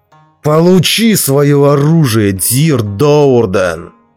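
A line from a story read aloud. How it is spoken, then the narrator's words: Roaring. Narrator (Russian): взревел Белвар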